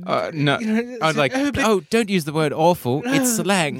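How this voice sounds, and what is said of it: Put-on old-timey aristocratic accent. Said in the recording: “Was that your old-timey accent? ... That's my old-timey accent. ... The Dowager Countess just entered the”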